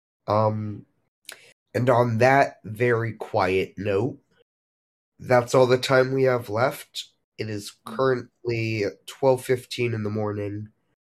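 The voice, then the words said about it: Worn-out, strained voice. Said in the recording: “my voice is dead”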